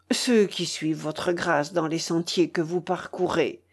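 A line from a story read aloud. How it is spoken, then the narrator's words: Low voice. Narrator (French): dit Waldemar, lui parlant à voix basse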